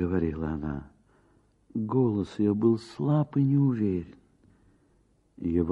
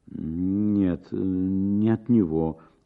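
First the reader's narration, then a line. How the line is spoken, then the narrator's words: Stammering reply. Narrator (Russian): отвечала, запинаясь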